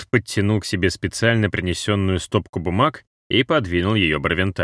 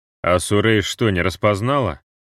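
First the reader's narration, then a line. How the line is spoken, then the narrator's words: Snort. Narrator (Russian): хмыкнул Барвенталь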